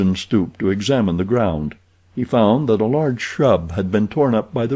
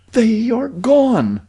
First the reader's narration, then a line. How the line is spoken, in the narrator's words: she exclaimed